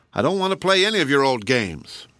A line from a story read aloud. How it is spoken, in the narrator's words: Marmaduke only said very crossly